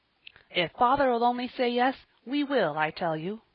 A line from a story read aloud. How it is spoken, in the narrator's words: he responded eagerly